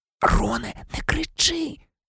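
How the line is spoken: Anxious whisper. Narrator (Ukrainian): тривожно зашепотіла Герміона

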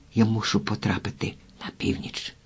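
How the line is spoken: Quiet. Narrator (Ukrainian): тихо промовив Джонні

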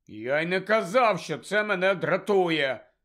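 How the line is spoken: Angry reply. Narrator (Ukrainian): сердито відповів Рон

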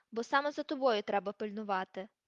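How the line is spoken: Growl. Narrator (Ukrainian): прогарчав Муді

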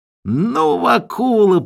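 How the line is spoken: Squeaky devil. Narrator (Russian): пропищал черт

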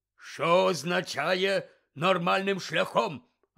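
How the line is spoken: Barked. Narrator (Ukrainian): гаркнув він

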